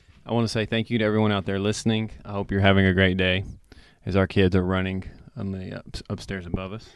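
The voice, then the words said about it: Congested, nasal voice. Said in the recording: “My head's a little stopped up. Sorry if I sound nasally.”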